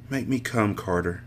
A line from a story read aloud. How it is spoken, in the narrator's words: she whispered